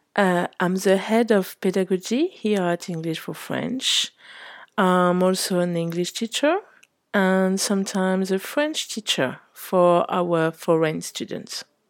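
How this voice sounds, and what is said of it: French accent in English. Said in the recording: “As you can tell from my name and my accent, I'm French.”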